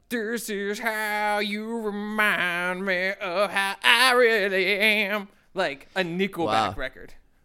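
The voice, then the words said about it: Imitates a rock singer's voice. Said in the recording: “that was a good impression”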